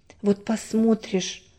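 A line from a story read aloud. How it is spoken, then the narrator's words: Mother sighing. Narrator (Russian): вздохнула мама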